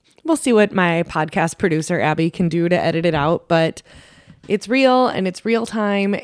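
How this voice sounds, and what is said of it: Slightly raspy voice. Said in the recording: “despite getting over a really bad cold ... my voice is a little raspy”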